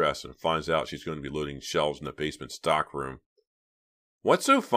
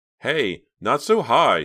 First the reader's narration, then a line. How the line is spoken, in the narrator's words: she cried